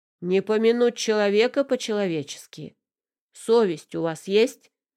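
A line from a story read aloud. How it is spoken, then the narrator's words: Thundering, indignant. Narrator (Russian): прогремел он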